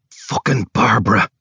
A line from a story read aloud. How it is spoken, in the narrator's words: He hisses